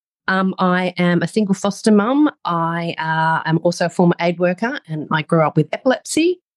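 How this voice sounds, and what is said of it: Australian accent. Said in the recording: “Obviously, I can hear my Australian accent.”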